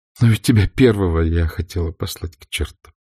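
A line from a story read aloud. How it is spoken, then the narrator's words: Said, then laughing. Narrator (Russian): сказала Скарлетт и рассмеялась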